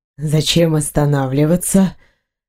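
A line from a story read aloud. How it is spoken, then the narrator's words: Ironic. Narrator (Russian): иронично ответил мужчина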